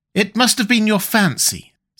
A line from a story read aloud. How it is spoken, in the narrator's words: said his wife, regarding him anxiously